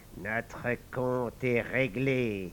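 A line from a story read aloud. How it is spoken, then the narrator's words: Murmur. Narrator (French): murmura le métis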